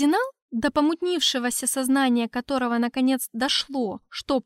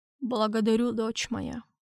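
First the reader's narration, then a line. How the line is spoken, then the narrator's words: Strained mumble. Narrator (Russian): С трудом пробормотал Дюшевуа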